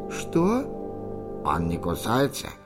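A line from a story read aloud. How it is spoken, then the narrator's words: Creaky salamander voice. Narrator (Russian): проскрипела саламандра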